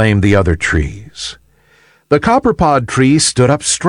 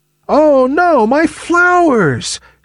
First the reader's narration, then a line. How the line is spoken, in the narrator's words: cried the copperpod tree